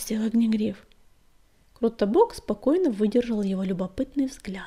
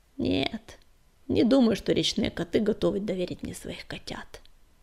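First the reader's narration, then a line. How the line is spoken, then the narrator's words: Quiet reply. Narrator (Russian): тихо ответил он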